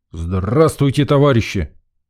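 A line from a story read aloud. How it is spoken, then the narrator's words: Weary bark. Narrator (Russian): гаркнул я, утомившись наблюдать за метаниями Лены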